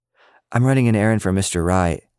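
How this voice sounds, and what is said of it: Apologetic voice. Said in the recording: “in an apologetic voice”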